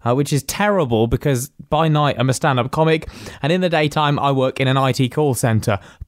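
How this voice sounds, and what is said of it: Rough, strained voice. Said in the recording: “my voice is a bit off today. I've been ill. My voice is ruined”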